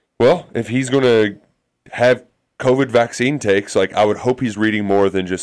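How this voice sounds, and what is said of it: Usual voice. Nothing is said of it.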